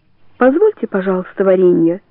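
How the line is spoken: Dry tone. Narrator (Russian): сухо говорит она

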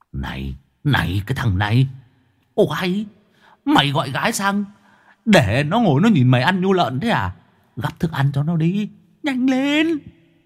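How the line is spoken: Whispered. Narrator (Vietnamese): Ông Cường ở đằng sau thì thầm

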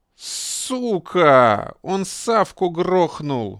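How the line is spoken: Howl from behind. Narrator (Russian): взвыл кто-то сзади

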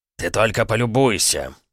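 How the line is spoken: Growl. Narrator (Russian): прорычал он

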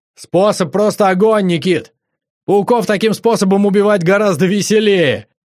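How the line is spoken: Joyful shout. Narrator (Russian): радостно крикнул Андрюха

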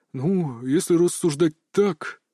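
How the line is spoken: Doubtful drawl. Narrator (Russian): с сомнением протянул отец

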